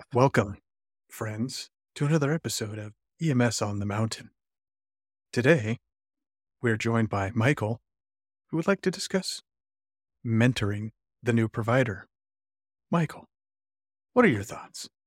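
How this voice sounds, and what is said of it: NPR-style radio announcer voice. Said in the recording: “This is my NPR voice... Your NPR voice? It's horrible.”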